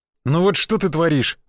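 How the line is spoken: Sighing. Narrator (Russian): вздохнул я

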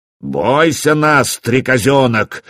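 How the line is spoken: Menacing growl. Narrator (Russian): зарычал он страшным голосом

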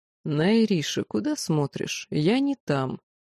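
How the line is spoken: Mocking whisper near ear. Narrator (Russian): насмешливо прошептали над моим ухом

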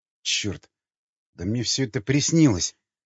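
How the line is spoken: Puzzled mutter. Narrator (Russian): озадаченно пробормотал Николай

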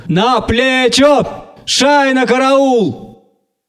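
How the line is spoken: Joyful excited loud shout. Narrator (Russian): радостно взволнованный, необыкновенно громкий голос крикнул

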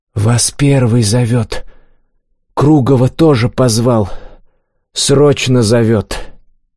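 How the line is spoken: Loud sleepy whisper. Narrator (Russian): Заспанный парнишка громко прошептал

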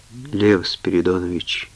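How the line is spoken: Quiet voice. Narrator (Russian): тихо произнесла она

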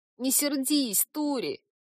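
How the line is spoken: Pleading. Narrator (Russian): взмолился пенек

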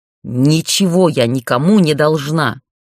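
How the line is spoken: Growled. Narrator (Russian): рыкнула

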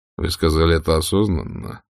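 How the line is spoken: Very calm question. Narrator (Russian): спросил он очень спокойно

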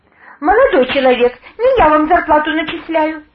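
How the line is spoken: Offended tone. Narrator (Russian): обиженно произнесла

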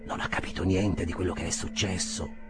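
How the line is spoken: Whispered. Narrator (Italian): sussurrò

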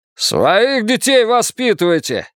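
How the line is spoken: Barked. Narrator (Russian): рявкнул Джерри Райс

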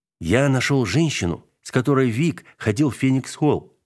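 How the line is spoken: Calmer repeated statement. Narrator (Russian): повторил Дубко уже более спокойным тоном

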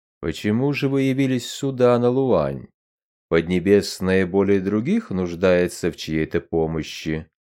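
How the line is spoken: Calm, faintly threatening rustle. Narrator (Russian): Голос императора прошелестел спокойно, но едва заметные угрожающие нотки

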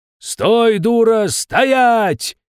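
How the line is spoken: Yelled. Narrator (Russian): заорал, наконец, пришедший в себя Егорка

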